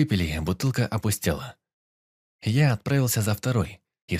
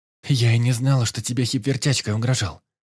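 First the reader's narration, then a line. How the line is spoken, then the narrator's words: Frightened. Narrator (Russian): испуганно сказала она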